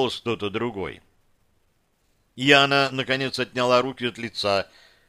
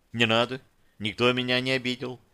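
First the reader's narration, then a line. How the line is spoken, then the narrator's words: Sighing. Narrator (Russian): вздохнула Яна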